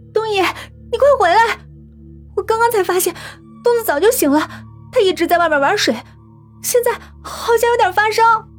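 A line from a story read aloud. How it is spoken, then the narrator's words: Shouting into phone. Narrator (Chinese): 拿过电话喊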